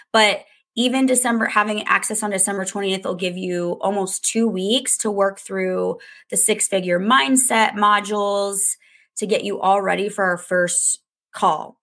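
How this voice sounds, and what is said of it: Sick, hoarse voice. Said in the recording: “As you can hear in my voice, I've been sick”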